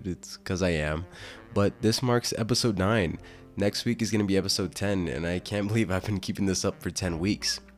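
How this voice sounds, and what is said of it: Congested voice. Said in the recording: “I sound kind of congested.”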